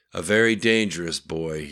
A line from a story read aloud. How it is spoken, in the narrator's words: he said flatly